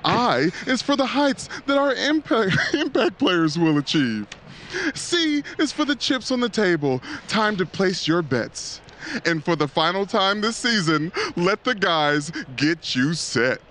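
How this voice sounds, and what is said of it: Game show host voice. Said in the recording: “That sounds like your game show host voice. ... I was trying to do my Cat Williams ... That's actually a decent Cat Williams.”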